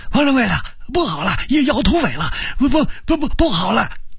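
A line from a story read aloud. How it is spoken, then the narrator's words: Frightened shouting. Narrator (Chinese): 吓得伙计们连跑带喊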